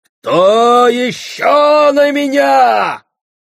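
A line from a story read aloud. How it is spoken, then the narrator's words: Shouted. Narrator (Russian): крикнул Маман Гендинг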